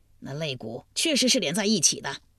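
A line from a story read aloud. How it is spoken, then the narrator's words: Shouting loudly. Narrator (Chinese): 姓陈大声叫道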